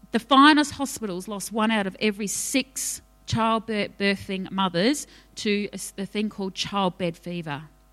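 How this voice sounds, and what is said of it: New Zealand accent. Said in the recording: “there's my Kiwi accent.”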